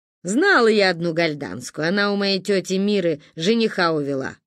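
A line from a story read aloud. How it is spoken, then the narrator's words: Wry snort. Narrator (Russian): хмыкнула Ба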